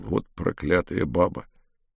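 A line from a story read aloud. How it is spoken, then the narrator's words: Grumbled. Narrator (Russian): Брежнев буркнул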